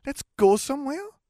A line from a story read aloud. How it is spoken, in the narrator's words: Gabby pleaded